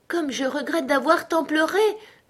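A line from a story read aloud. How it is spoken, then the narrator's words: Exclaimed. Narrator (French): s'exclamait Alice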